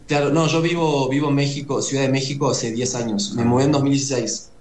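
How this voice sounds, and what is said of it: Uruguayan Spanish accent. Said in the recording (Spanish): “el acento sigue intacto. Siendo uruguayo, pues pegado a Argentina”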